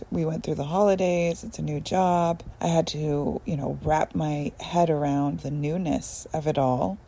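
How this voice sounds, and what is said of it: Tired-sounding voice. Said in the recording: “as you can hear in my voice, I'm very tired.”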